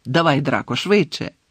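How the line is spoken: Angry shout, cruel man. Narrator (Ukrainian): сердито крикнув чоловік з жорстоким обличчям

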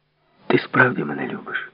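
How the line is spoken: Stubborn whisper. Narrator (Ukrainian): Вона прошепотіла вперто

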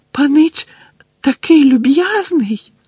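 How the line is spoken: Tearful squeak. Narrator (Ukrainian): запищав він, а очі його знову наповнилися слізьми

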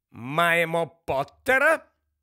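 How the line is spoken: Sharp question. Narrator (Ukrainian): різко перепитала професорка МакГонагал

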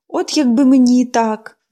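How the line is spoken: Sighing. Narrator (Ukrainian): зітхнула Поліанна

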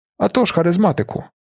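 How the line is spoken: Rapid accented voice from behind. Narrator (Ukrainian): Долинув позаду голос Лопена, чий скоромовний акцент

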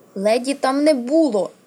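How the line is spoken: Angry shout. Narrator (Ukrainian): гнівно крикнула Арія

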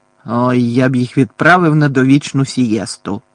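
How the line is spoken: Growled. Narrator (Ukrainian): прогарчав дядько Вернон

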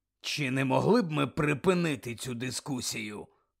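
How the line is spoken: Growl. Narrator (Ukrainian): прогарчав Муді

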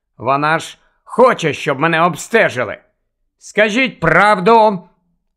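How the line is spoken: Shouted. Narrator (Ukrainian): Останні два слова він викрикнув

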